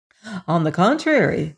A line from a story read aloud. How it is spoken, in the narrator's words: said the fox